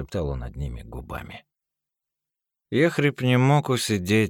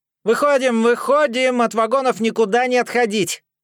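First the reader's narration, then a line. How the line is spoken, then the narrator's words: Yelling from a distance. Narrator (Russian): Орал вой, стоявший метров 20 от вагона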